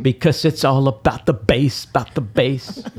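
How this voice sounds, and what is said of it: Poor imitation of a pop singer. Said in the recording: “bad Meghan Trainor impression.”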